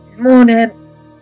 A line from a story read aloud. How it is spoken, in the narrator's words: Kaelin moaned